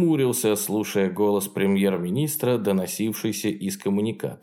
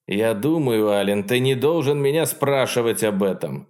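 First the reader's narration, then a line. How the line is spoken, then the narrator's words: Irritated reply. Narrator (Russian): раздраженно ответил граф Белой Гавани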